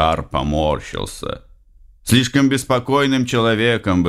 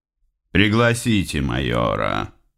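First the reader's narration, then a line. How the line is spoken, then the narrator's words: Said into intercom. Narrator (Russian): сказал Бланшар в селектор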